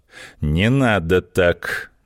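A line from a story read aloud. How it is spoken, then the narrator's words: Slow, policeman. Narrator (Russian): медленно проговорил полицейский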